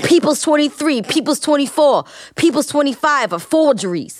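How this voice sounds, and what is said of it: Amped-up, intense imitation of another person. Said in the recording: “I sound very, very... ... that's a great impression. Look, I was amped up”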